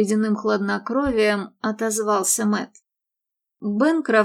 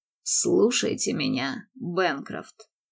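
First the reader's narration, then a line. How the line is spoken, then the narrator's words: Low growl. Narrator (Russian): тихо прорычал он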